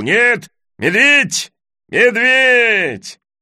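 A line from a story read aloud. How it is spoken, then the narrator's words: Shrieking horse. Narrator (Russian): Завизжала лошадь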